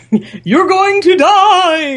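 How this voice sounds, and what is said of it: Impression of Storm from X-Men. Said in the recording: “good impression of Storm from the early '90s, mid '90s cartoon”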